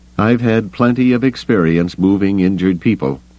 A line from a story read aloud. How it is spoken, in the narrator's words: Bell Iblis said grimly